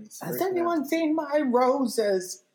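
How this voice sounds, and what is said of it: Impression of a sitcom character. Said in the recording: “that's my Furley impression.”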